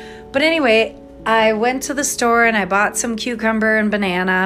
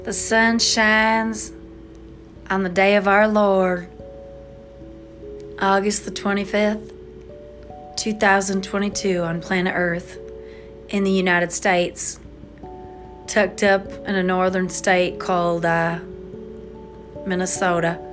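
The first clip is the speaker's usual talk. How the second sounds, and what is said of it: Made-up Southern-sounding accent. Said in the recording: “I just totally made up an accent. I mean, come on, that sounds like a southern person.”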